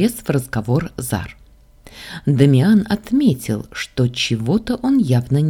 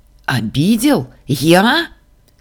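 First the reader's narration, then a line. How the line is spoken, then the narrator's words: Furious exclamation. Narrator (Russian): с яростью воскликнул Дамиан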